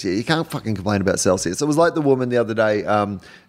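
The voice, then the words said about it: Australian accent. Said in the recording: “my accent ... this is not a voice I put on ... can you just not be Australian for a little bit?”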